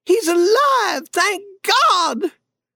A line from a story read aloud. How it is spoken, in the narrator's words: she cried